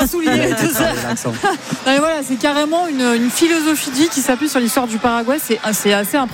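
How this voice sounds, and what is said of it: Usual voice. Nothing is said of it.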